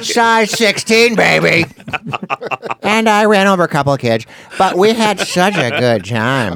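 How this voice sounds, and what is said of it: Imitates another person's voice. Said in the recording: “That's my impression, by the way. It's not Kyle Dunnigan. ... That's you doing ... Caitlin?”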